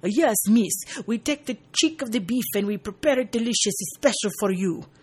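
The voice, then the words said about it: Bad fake French accent. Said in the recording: “in a very bad fake French accent ... That sounds more Italian.”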